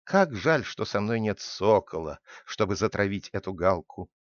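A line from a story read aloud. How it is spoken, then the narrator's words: Sighing. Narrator (Russian): вздохнул Удо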